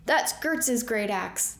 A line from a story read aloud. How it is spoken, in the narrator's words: the man shouted